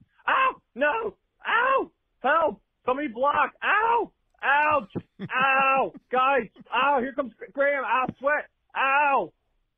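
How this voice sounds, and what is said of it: Imitates another person's voice, yelping. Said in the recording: “Here's my impression of Brock Purdy Sunday”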